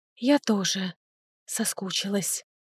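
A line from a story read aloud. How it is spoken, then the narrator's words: Whisper. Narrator (Russian): шепнула она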